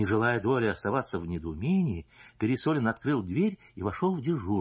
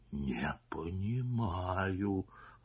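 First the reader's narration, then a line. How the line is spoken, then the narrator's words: Whispered. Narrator (Russian): прошептал Пересолин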